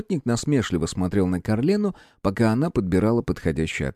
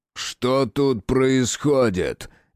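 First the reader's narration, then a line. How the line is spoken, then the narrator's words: Barking shout. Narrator (Russian): гаркнул Джеральд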